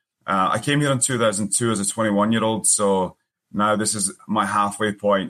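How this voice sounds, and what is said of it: Strong Scottish accent. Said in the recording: “you've got this great accent ... I am originally from Scotland ... I know my accent's still strong”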